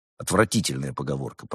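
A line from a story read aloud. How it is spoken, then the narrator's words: Grumbling. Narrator (Russian): проворчал Константин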